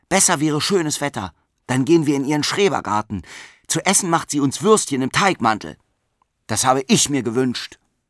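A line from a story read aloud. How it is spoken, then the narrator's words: Stern. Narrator (German): sagte streng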